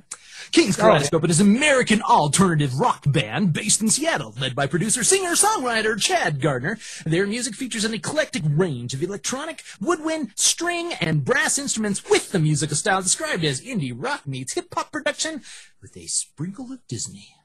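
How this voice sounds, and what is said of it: Radio DJ announcer voice. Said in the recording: “read in my DJ voice.”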